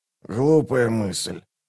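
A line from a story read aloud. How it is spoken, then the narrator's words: Hoarse rasp. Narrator (Russian): прохрипел Раллик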